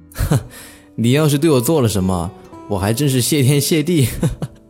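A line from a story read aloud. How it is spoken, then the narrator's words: Laughing loudly. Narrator (Chinese): 云哥放声大笑着说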